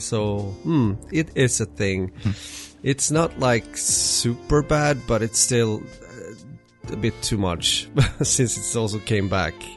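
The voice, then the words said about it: Voice sounding like a cold. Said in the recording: “maybe you listeners can already hear that I have a cold again”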